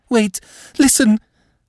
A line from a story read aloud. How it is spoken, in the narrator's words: Madame was panting